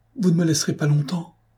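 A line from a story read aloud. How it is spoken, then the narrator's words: Pleading, just recovering. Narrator (French): implora Virgile en reprenant ses sens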